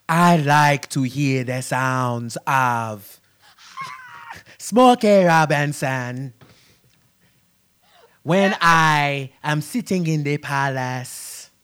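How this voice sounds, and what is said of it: Put-on T'Challa character accent. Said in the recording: “Your T'Challa accent gotta go.”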